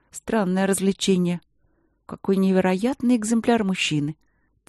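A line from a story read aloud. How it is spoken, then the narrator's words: Quiet. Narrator (Russian): тихо сказала Ангелина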